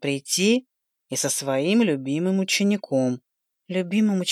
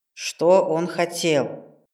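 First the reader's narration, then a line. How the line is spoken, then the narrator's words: Mentor's stern question. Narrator (Russian): строго спросил мой наставник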